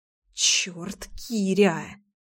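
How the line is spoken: Muttered. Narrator (Russian): пробормотала я

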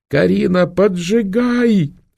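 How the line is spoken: Desperate scream. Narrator (Russian): отчаянно закричала Валерия, отбиваясь от рук Проксимы и инфанты

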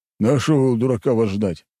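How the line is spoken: Snorting. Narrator (Russian): хмыкнул Тимофей

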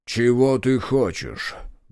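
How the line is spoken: Muffled low question. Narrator (Russian): глухо спросил он

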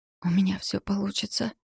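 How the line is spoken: Trembling self-encouragement. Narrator (Russian): подбадривала она себя дрожащим голосом

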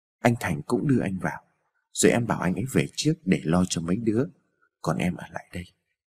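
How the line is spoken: Gentle. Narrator (Vietnamese): Tuyết Ngân dịu dàng

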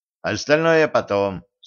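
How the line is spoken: Plain. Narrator (Russian): сказал он Женьке

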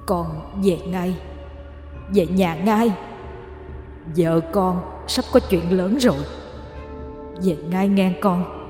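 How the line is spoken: Distant, ghostly old voice. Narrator (Vietnamese): Bóng ông nói với giọng xa xăm

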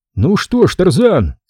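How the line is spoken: Shouted. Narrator (Russian): крикнул он

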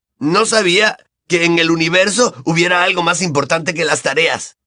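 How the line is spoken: Exclaiming. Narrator (Spanish): exclamó Ron

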